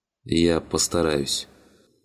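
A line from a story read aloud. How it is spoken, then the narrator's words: Rider sighing. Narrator (Russian): вздохнул всадник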